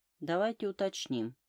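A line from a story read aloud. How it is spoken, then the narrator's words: Calm. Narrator (Russian): спокойно произнесла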